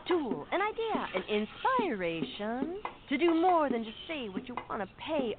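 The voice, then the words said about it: Beat poet voice. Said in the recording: “my impression of a beat poet”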